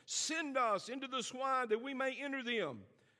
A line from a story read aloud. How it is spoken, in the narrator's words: all the demons begged him, saying